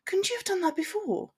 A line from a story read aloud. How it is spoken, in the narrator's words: she sighed, allowing her annoyance to come through in her voice